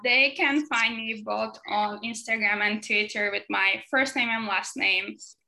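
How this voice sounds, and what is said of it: Speaks with a noticeable accent. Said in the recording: “please excuse my accent too. I try my best.”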